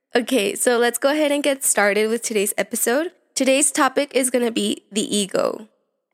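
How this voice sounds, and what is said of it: Slightly raspy voice. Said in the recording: “My allergies have been kicking in, so my voice is a bit raspy.”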